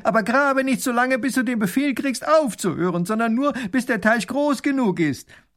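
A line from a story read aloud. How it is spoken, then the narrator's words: Calling after someone. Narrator (German): Der Großherzog ruft ihm noch nach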